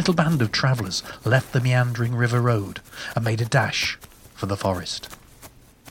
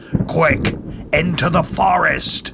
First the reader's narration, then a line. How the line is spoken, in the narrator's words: yelled Captain Jack